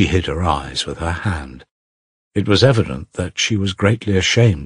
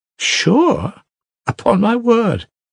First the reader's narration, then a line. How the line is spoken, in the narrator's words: blushing hotly and laughing a little happy laugh